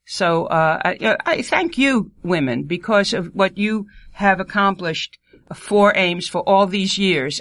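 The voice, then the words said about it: New York accent. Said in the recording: “with my New York accent”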